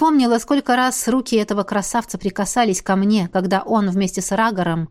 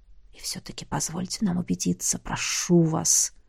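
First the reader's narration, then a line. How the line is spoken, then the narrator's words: Whisper. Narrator (Russian): шепнул Миар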